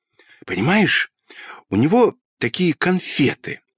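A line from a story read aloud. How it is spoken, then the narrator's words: Quick whisper. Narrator (Russian): быстро зашептал Петька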